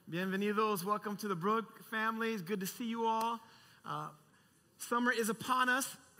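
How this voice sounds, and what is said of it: Strained, nearly lost voice. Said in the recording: “my voice is almost lost singing”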